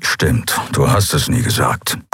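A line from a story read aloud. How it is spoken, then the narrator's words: Grumbling. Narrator (German): brummte er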